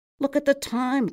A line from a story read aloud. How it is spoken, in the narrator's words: cried Fischkoppel